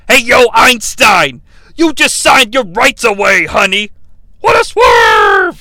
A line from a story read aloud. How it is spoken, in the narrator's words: yells Tony